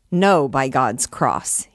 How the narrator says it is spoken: he cried in his voice of thunder

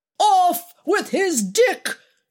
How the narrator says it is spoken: shouted Alex

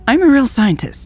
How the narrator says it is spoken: blurted out feeling silly

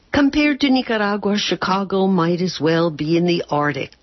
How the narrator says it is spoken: Lorna said

